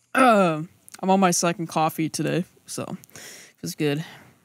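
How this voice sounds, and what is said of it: Weak voice, struggling to project. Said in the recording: “my voice sounds weaker today ... you can't project normally ... keep having to just, like, cough to kind of clear your throat”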